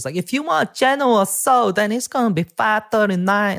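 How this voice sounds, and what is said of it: Imitated Chinese accent. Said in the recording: “this Chinese lady screaming at people ... some white lady with this really good Chinese accent. She was really good at it ... she was doing it way better than me”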